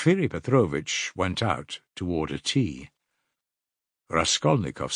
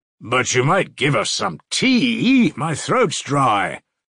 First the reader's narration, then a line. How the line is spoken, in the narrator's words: cried Razumihin